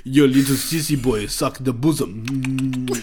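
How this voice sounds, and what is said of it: Put-on Russian accent. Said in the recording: “in a Russian accent”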